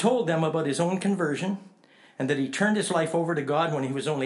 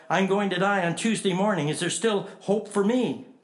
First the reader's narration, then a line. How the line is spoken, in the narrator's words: Suddenly cried out